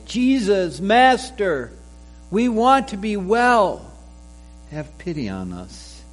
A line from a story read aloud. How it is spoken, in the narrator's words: called out in a loud voice